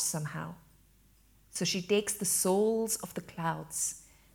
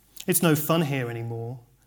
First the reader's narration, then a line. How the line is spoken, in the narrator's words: remarked Bleak House, sadly